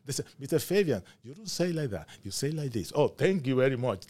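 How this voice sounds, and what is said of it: Non-native English accent. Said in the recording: “I don't know much English ... I mispronounced in my accent”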